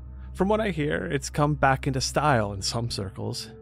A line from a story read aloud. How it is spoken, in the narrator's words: he chuckled dryly